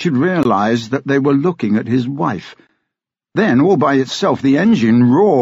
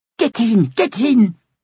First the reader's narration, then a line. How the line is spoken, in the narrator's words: cried one of them